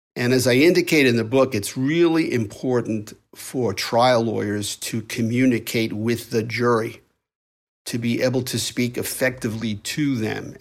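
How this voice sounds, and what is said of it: New York accent. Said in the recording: “my New York accent”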